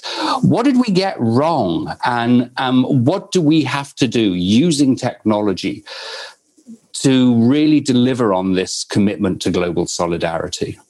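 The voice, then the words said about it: British accent. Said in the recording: “As you can tell from my accent, I'm originally from the United Kingdom”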